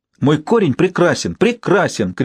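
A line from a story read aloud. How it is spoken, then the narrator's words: Shout. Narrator (Russian): крикнула Фуксия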